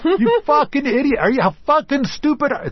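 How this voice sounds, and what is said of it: Yelling angrily. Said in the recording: “I'm yelling”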